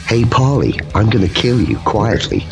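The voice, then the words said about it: Soothing imitation of another person's voice. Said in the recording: “he does have a very soothing voice ... It's a good impression.”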